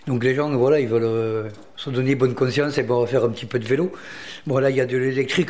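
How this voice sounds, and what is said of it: Southern French accent. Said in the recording (French): “moi je suis un mec du Sud ... Vous avez reconnu votre accent.”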